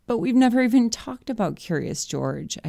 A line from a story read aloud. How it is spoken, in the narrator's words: I cried